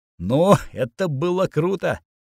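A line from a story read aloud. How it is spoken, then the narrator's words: Laughing. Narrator (Russian): Я рассмеялся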